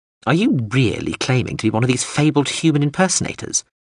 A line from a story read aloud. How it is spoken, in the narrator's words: it asked with a sneer in its voice